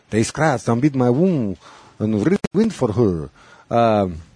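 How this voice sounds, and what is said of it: Put-on French accent. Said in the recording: “reading that in a French accent”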